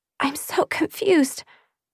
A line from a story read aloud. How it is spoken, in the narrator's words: I whimpered